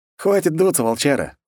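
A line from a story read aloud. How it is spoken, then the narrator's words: Snorting. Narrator (Russian): хмыкнул я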